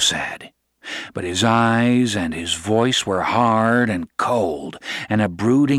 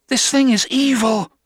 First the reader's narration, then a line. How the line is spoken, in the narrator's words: she cried harshly